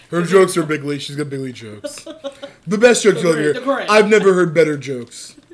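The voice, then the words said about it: Imitates another person's voice. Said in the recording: “it's so easy to do Trump”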